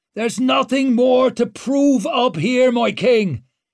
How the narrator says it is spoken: Clover shouted over the racket

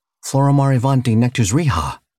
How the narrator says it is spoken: he blurted

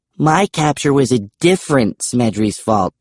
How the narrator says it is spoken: Bastille snapped, flushing

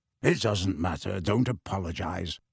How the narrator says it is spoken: Sirius mumbled at once

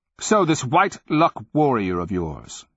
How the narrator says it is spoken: snapped

